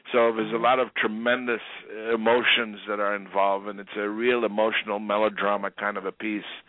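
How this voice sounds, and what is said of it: New York accent. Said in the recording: “You sound Italian a little Italian... From New York, and I kept that accent.”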